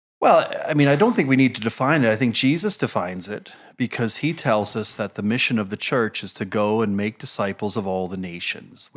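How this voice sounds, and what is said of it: American New Jersey accent. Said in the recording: “from your accent, folk know that you're not from Cambus Lang. You're, in fact, a native of New Jersey.”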